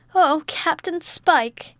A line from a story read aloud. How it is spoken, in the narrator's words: exclaimed the agitated widow